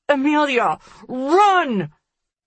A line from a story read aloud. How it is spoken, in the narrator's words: I yell through the gunshots that follow